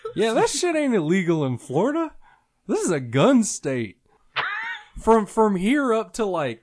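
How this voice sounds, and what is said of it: Strong Southern accent, like Hank Hill. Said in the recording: “I don't know why he sounds so Southern? When you said that statement right there, it was very Southern. ... Like Hank, you sounded like Hank from King of the Hill.”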